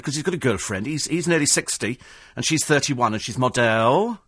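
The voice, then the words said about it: Put-on Welsh accent. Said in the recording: “I'm doing a, a Welsh accent”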